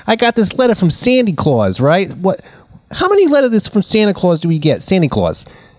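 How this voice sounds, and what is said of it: Old New York gangster accent. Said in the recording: “it's the 1940s in New York, so everybody kind of talks like a gangster, see?”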